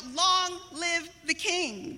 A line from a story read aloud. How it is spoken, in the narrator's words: Jesse and his brothers ... they shout